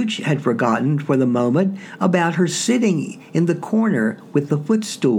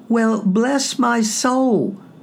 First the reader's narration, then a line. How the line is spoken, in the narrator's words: cried Fred